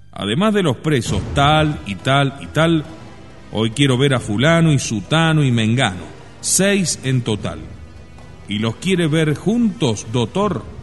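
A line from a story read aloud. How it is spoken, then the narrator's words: Stern, strong voice. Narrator (Spanish): advertir con voz recia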